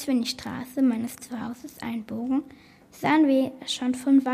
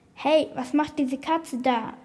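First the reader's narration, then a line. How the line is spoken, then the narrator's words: Policeman calling out. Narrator (German): rief ein Polizist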